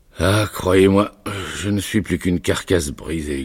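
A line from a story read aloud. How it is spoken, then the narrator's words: Grumbling. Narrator (French): grogna-t-il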